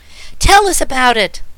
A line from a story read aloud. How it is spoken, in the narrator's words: begged the girl excitedly